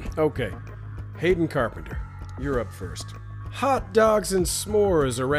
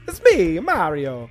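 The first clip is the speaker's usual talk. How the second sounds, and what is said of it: Exaggerated put-on Italian accent. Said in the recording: “What's an Italian accent? ... My only touchstone for an Italian accent is Mario”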